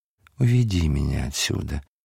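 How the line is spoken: Tender whisper. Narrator (Russian): шептала ласково

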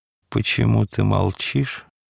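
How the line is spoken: Hoarse, quiet. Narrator (Russian): произнес хриплым тихим голосом

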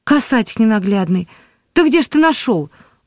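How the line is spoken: Old woman exclaiming. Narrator (Russian): воскликнула старуха

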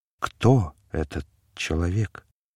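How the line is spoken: Whispered. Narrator (Russian): Он прошептал

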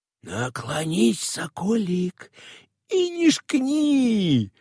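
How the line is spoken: Whispering. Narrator (Russian): шепотом говорил Евсеич

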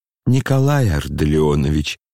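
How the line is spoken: Tender, touched voice. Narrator (Russian): чуть не умиленным голосом обратился Лебедев к Оле

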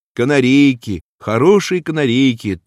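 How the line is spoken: Man shouting. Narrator (Russian): так кричал мужик под Машиным окошком

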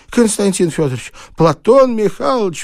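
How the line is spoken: Cry out. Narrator (Russian): вскрикнул он

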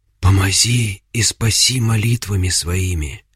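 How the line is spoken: Whisper. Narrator (Russian): прошептала Агафья

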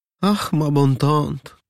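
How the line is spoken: Sweet voice, princess. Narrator (Russian): добреньким голоском отвечала княгиня

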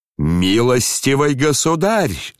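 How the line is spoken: Thunderous shout. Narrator (Russian): закричал он громовым голосом Птицыну

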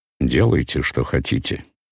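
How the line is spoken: Dry reply. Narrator (Russian): отвечал им сухо Дубровский

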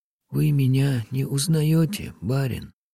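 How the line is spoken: Whisper. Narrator (Russian): прошептал опять голос

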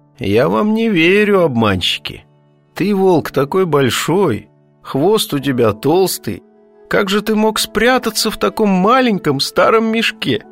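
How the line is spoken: Laughing. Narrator (Russian): кот … рассмеялся и говорит

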